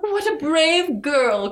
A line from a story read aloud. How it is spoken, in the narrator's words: cried the queen